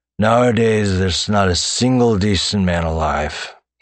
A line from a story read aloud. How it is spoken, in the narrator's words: he slurred